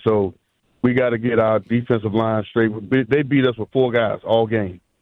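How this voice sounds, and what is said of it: Hoarse voice. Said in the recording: “I'm hoarse”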